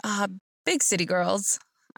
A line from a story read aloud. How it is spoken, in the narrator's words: He chuckled and said